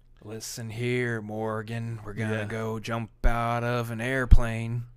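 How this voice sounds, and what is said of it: Jack Nicholson impression. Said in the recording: “that's the first time I've ever actually really tried a Jack Nicholson.”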